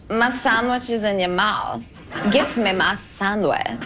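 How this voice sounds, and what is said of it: Imitates another person's voice. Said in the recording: “this is her doing Anna, inventing Anna on SNL ... What is that voice?”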